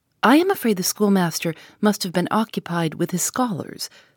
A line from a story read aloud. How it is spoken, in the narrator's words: said Miss Halcombe